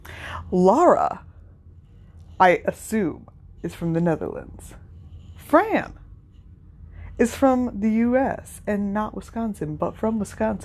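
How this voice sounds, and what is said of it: Regional American accent. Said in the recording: “self-conscious of my accent. I admittedly have an accent”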